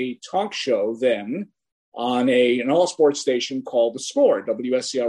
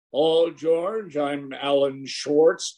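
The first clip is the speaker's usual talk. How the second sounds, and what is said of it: Deep voice, poor imitation of a caller. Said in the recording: “very deep voice ... It's a really bad impression.”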